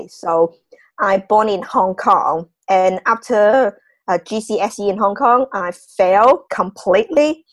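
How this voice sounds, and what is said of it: Non-British foreign accent. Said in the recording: “So you can hear my accent. So you can tell that I'm not born and bred in UK.”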